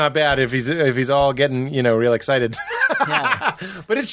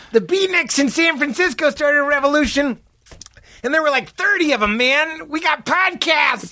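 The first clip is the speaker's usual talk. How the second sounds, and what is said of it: Imitates another person's voice. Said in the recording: “good impression”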